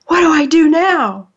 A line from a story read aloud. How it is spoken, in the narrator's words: gasped